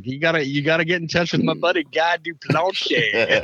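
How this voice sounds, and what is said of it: Creole-tinged accent twang. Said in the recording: “You even put a little accent twang on that son of a bitch. ... There's like Creole in it or something.”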